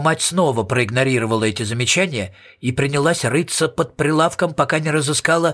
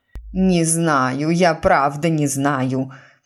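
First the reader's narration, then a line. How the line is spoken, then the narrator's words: Moaning. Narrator (Russian): простонала миссис Пруст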